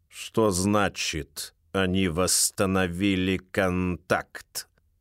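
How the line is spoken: Slow question. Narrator (Russian): медленно спрашивает Рид

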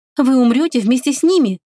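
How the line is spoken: Agitated, impatient exclamation. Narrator (Russian): взволнованно воскликнула она, теряя терпение

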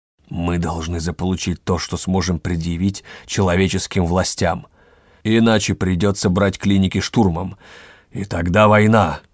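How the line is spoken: Growled, losing control. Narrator (Russian): Рыкнул Ревский, не удержался

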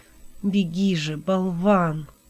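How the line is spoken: Helplessly angry whisper. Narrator (Russian): прошептал Хилот в бессильной злобе

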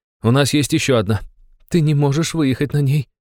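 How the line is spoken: Trembling voice. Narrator (Russian): дрогнувшим голосом проговорила девушка

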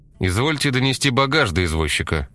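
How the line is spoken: Displeased snort. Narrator (Russian): Недовольно хмыкнул Корнеев

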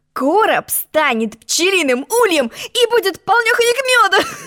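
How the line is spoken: Knight laughing. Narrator (Russian): Засмеялся рыцарь

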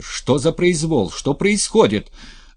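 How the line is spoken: Yelling loudly. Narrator (Russian): орала она на весь двор

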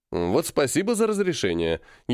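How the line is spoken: Sarcastic. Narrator (Russian): ехидно сказал я

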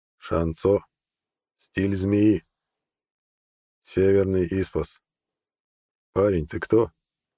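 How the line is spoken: Slow, old man. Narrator (Russian): Старик медленно произнес

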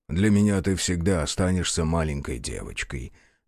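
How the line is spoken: Soft reply. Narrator (Russian): мягко отозвался ББ

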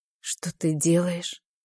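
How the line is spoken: Barely audible, overwhelmed whisper. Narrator (Russian): шепчу, едва слышно, теряясь в ощущениях

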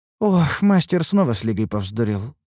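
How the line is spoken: Sighing. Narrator (Russian): вздохнула Лейна

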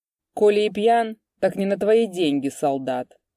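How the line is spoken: Rude answer. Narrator (Russian): грубо ответил Куприян

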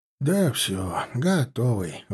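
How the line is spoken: Sighing. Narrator (Russian): вздохнул Малаев

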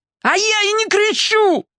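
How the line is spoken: Sudden yell. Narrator (Russian): заорал вдруг Гоша

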